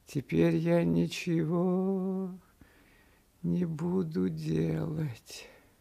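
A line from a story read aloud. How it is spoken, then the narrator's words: Quiet singsong to himself. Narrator (Russian): сказал он самому себе негромко и нараспев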